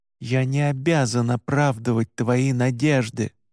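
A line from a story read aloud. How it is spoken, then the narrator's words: Through gritted teeth. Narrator (Russian): сквозь зубы ответил я невидимому собеседнику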